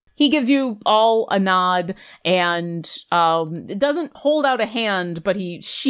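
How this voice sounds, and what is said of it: Usual voice. Nothing is said of it.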